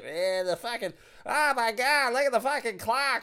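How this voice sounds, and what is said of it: Put-on Boston accent. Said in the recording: “I got a goddamn Boston accent”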